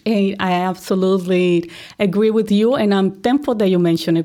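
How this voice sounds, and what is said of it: Colombian-accented English. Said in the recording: “you are not from Chicago originally. Obviously, you got a little bit of an accent, right? ... I recognize I have my accent ... I'm originally from Colombia”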